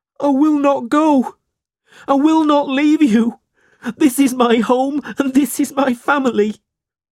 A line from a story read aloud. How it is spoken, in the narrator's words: Smike cried